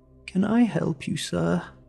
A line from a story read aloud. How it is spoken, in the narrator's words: she asked, her voice sickly sweet